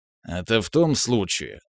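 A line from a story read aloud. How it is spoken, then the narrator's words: Grumbling. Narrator (Russian): заворчал президент Йорзе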